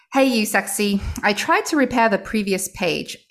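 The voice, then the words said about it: Poor put-on British accent. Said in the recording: “I think I'm going to go with the British accent today, the poor British accent.”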